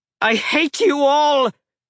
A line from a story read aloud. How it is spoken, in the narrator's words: the god screamed, spittle flying